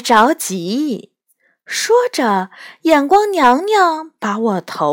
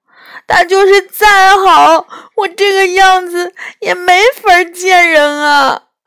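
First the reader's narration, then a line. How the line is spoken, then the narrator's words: Sobbing. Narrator (Chinese): 抽泣着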